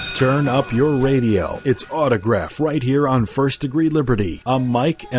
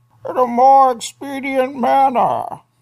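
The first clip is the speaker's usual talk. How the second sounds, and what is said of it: Bane character voice impression. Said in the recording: “That was Bane. ... You do a Bane impression with a coffee cup.”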